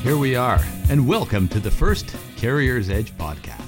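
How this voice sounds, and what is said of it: Announcer voice. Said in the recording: “does his announcer voice”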